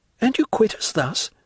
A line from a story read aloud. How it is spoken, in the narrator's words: said Julie